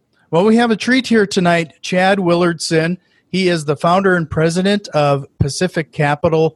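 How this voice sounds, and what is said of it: North Dakota accent. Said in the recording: “I'm near Fargo, North Dakota. ... You might even hear it in my accent”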